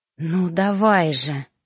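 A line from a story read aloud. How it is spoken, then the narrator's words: Inward growl. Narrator (Russian): рычала я мысленно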